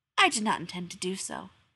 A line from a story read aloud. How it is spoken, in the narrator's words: she added, but only quietly